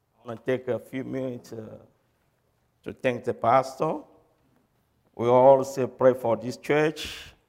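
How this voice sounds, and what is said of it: Non-native English accent. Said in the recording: “I got an accent. When you saw me, God speaking, you know I'm not from here. English is not my first language, not my second, not my third, it's my fourth.”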